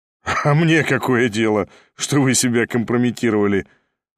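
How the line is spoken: Laughing. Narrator (Russian): засмеялся Ставрогин

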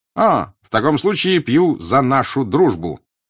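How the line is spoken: Cheerful shout. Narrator (Russian): весело крикнул он

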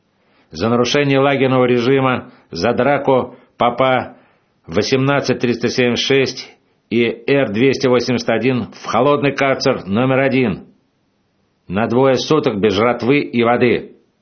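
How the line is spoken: Shouting boss. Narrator (Russian): крикнул начальник

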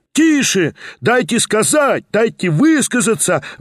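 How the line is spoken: Yelling. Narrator (Russian): вопила другая часть

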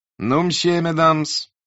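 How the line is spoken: Loud, forced cheer. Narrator (Russian): сказал Николай громко и как бы весело

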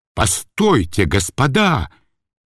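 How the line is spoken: Slow-witted fish shouting. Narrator (Russian): крикнул медленно, но прочно соображающий карась

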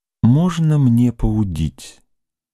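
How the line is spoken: Timid question, young woman. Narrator (Russian): Робко спросила девушка

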